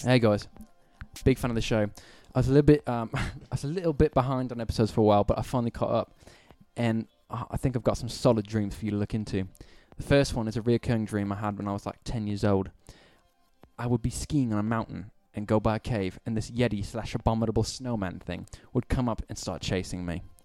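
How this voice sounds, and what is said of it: Put-on British accent. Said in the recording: “I'm gonna read this in a British accent.”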